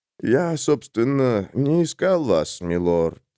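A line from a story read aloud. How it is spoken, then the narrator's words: Calm traveler. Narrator (Russian): спокойно ответил путник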